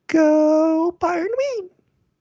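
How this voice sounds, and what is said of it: Cheerleader voice. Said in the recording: “that's your impression of a cheerleader”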